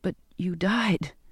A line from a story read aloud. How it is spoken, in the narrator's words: whispered